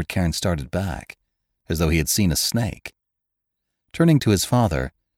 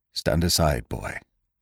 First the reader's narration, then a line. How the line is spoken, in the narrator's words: said the doctor, and for once his voice shook slightly